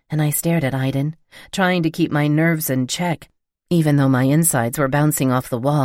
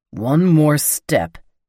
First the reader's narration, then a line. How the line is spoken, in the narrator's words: Aiden growled over his shoulder to Will